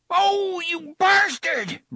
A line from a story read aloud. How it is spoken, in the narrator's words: Brandon shouted in surprise and pain